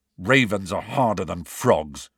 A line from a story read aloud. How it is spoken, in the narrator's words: said Ron testily